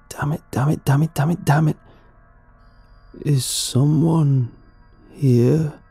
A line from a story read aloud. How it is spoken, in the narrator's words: it groaned, holding out its words with despair